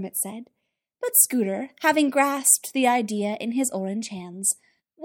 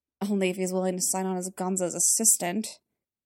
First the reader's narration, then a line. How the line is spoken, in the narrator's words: Kermit muttered